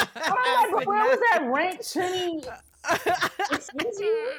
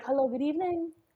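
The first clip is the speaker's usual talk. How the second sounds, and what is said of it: Imitated proper, polite accent. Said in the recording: “The proper accent.”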